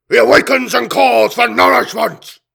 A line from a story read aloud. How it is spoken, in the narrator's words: He snarled, in a string of guttural barks that no human throat could ever have produced